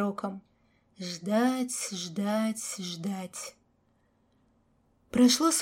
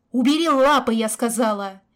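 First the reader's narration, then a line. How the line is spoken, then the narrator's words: Shouting. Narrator (Russian): Яна кричала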